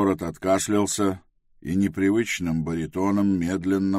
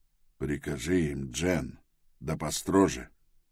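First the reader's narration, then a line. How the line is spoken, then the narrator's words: Quietly. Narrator (Russian): он тихонько сказал Пилороту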